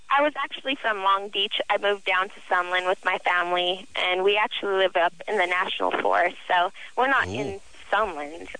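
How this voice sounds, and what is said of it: High childlike little girl voice. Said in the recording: “You have the little girl voice. ... I've always had this little girl voice.”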